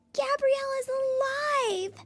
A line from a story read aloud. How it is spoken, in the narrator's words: Lucy squealed